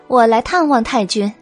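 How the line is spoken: Laughing behind hand. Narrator (Chinese): 白姬掩唇笑了

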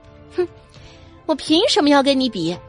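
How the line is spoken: Contemptuous scoff. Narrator (Chinese): 阮明星轻蔑一笑

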